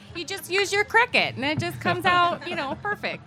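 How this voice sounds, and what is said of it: Put-on Midwestern Michigan/Minnesota accent. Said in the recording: “Are you from Michigan all of a sudden? ... Minnesota accent ... A little Michigan.”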